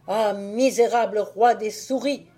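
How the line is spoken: Exclaimed. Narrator (French): s'écria-t-il

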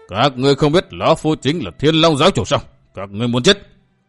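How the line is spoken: Loud roar. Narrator (Vietnamese): Vĩnh Chi gầm lên một tiếng thật lớn

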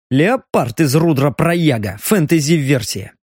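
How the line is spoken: Angry spitting out. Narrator (Russian): Зло сплюнул Леха

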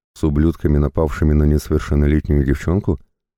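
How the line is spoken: Calm inquiry. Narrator (Russian): Спокойно поинтересовался

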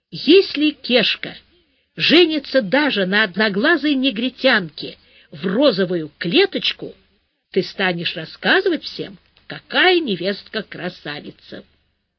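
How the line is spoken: Stern, to herself. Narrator (Russian): строго сказала сама себе

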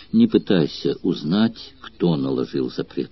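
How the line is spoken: Sad young woman's reply. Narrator (Russian): печально ответила девушка

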